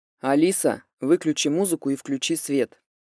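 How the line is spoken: Thunderous command. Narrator (Russian): приказал громоподобным голосом Тополев

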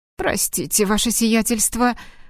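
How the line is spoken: Timid babbling. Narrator (Russian): пролепетал

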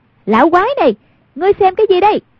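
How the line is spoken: Loud cry. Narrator (Vietnamese): Hoàng Dung lớn tiếng kêu lên

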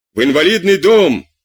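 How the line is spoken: Shout. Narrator (Russian): крикнул Марат

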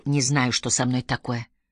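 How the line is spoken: Embarrassed, forced out. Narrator (Russian): смутившись, выдавил

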